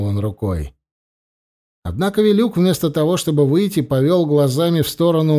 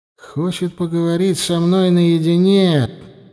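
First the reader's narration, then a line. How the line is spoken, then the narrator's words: Tired. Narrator (Russian): сказал устало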